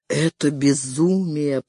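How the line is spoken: Muttered. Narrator (Russian): пробормотал Гарафолли

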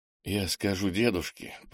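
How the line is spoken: Whisper. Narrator (Russian): прошептал Кенни

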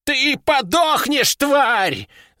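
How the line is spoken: Old man screaming. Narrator (Russian): завопил старик

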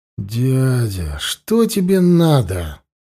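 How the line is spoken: Tired question. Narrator (Russian): устало спросила Юр

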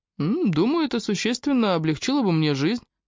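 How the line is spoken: Cheerful, slightly mysterious. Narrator (Russian): ответил Фрэнк весело и слегка загадочно

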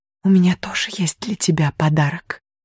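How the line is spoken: Determined whisper. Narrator (Russian): решительно прошептала Мирен

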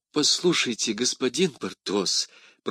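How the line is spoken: Guilty mutter. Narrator (Russian): пробормотала прокурорша, чувствуя, что она действительно была виновата

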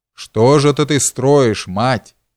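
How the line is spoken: Menacing. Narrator (Russian): грозно заговорил он

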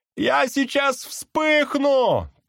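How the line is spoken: Shouting. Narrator (Russian): прокричал другой

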